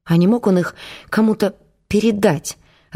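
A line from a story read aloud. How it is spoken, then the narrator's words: Timid question. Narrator (Russian): робко спросил напарник сержанта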